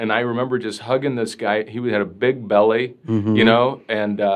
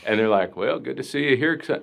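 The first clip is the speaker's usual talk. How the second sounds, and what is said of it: Put-on Southern accent. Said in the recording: “My mind just goes to like a Southern accent.”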